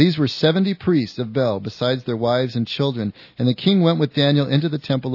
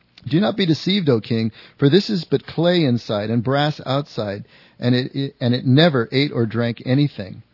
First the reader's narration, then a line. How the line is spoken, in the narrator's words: Daniel laughed and said